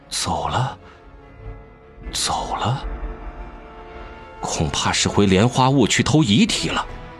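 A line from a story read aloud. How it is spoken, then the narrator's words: Murmuring. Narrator (Chinese): 魏无羡喃喃道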